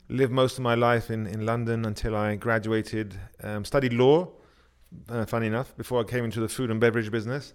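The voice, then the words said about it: English accent. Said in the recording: “that English accent”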